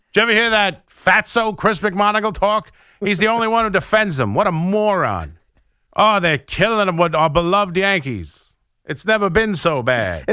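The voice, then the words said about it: Vaudeville-style 1950s baseball fan voice. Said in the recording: “I'll call it a voice, an impersonation ... Is that like the 1950s fan? ... Kind of vaudeville. It kind of got into a vaudeville.”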